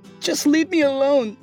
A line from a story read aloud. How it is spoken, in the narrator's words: she pleaded